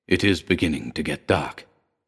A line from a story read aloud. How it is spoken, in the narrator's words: murmured